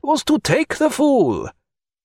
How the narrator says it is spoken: cried Pontécanet

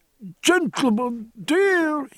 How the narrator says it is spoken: cried, his emotion drowning what little English he possessed

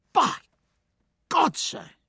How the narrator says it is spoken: he cried

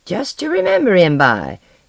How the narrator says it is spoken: cackled

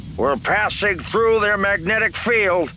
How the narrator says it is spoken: Red Leader said, his voice over the comm crackling with interference

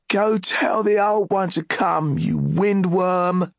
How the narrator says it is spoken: he laughed and shouted

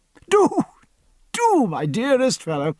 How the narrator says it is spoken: cried Blaine, laughing for joy

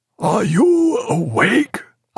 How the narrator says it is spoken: asked Jack Aubrey in a hoarse whisper through a crack in the door

